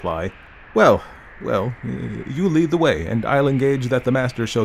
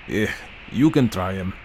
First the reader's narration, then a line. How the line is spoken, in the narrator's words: muttered my reluctant guide